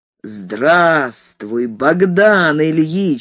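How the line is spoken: Deep bass voice. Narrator (Russian): сказал густым басом

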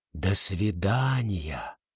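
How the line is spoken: Soft whisper. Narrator (Russian): мягко шепнула Бриджит

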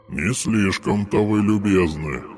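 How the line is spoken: Ghostly grumble. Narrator (Russian): проворчал призрак

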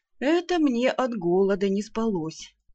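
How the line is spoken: Mock-sad sigh. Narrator (Russian): с наигранной печалью вздохнул вампир

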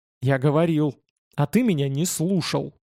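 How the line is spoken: Angry. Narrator (Russian): зло сказал Павел

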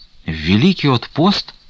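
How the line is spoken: Frightened exclamation. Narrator (Russian): испуганно воскликнул Стуколов

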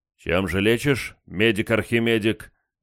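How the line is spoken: Rough question. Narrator (Russian): грубо поинтересовался я

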